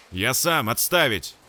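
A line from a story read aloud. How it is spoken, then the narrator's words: Growl. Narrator (Russian): прорычал тот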